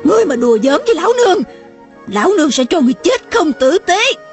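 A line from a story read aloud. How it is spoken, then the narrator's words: Shout. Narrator (Vietnamese): mụ hét lên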